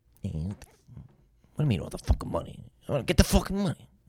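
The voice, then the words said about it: Imitates another person's voice. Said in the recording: “Impression of someone famous. ... Robert De Niro.”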